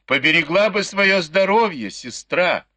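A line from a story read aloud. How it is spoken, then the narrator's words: Laughing shout. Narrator (Russian): со смехом крикнула ей вслед Дай Юй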